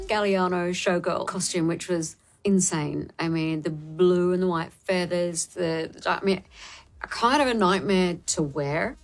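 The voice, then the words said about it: Faint Australian accent. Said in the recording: “It's sort of a faint Australian accent”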